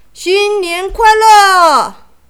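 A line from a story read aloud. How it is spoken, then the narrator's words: Crowd shouting together. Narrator (Chinese): 客人们也跟着大喊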